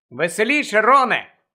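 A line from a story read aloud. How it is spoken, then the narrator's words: Shouted. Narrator (Ukrainian): крикнула Лаванда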